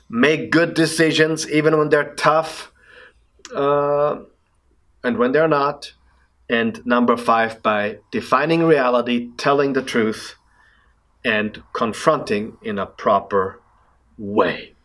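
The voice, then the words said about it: Austrian-accented English. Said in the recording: “my Austrian accent”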